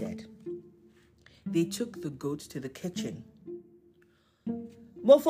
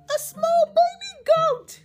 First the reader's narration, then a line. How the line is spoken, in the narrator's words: She squealed